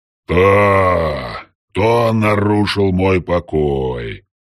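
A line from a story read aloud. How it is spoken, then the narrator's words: Booming deathly voice. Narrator (Russian): В лучших традициях хоррора прогремел мертвенный голос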